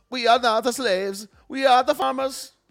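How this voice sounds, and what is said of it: Weak put-on Italian accent. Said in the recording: “I can't. I used to be better at my Italian accent.”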